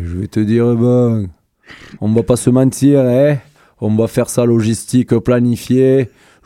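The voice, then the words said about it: Imitates another person's voice. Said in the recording (French): “fais-nous l'accent du sud ... ma meilleure imitation, c'est Loli. Fais-moi Loli”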